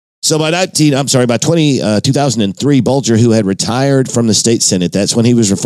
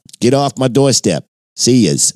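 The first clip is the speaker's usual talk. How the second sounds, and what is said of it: Attempted Boston accent, sounds Brooklyn. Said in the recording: “that was my attempt at a Southie accent. ... I think that was more Brooklyn.”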